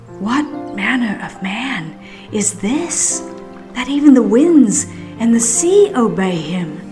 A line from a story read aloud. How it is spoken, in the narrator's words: The people whispered among themselves